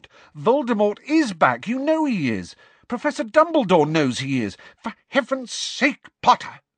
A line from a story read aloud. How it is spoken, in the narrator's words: said Professor McGonagall, straightening her glasses angrily